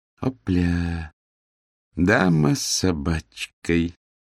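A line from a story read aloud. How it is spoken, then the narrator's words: Slow. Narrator (Russian): медленно произнес Миловидов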